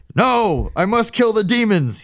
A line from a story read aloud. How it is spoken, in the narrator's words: he shouted